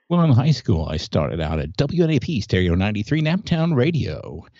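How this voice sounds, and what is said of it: Polished, resonant radio announcer voice. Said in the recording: “I can hear the beautiful radio voice that you have”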